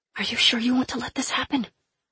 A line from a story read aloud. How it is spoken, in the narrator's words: I hissed at Fox